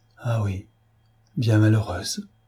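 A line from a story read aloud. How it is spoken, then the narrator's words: Murmuring. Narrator (French): murmura-t-elle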